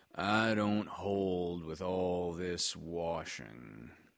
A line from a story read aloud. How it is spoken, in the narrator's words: grumbled Eeyore